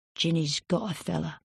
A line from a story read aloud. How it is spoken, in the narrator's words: He kept his voice low and said